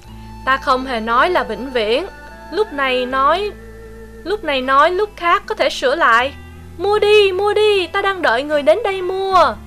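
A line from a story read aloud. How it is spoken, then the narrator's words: Sighing. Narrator (Vietnamese): Ta thở dài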